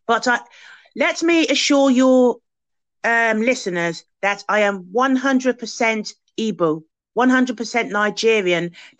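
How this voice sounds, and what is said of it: London accent, slight Nigerian trace. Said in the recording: “I can still hear a bit of Nigerian in my voice ... the London accent”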